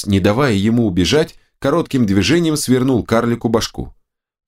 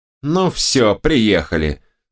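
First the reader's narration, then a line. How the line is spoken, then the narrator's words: Angry girl spitting words. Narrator (Russian): зло сплюнула девчонка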